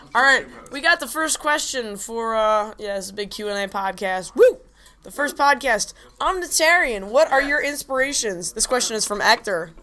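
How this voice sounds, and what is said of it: Hoarse, sore-throated voice. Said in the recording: “I have a sore throat”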